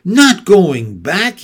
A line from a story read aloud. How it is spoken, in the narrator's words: he cried